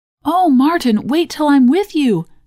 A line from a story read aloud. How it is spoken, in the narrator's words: cried Mary